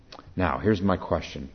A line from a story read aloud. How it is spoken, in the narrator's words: she says